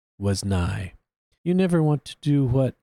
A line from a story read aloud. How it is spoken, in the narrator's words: she sighed